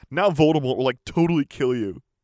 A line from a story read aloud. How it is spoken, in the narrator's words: she laughed